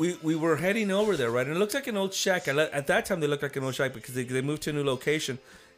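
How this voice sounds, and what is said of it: Usual voice. Nothing is said of it.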